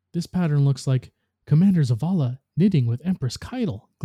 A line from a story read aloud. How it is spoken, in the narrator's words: Glint exclaimed